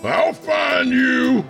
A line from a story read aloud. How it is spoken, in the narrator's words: He yelled into the desert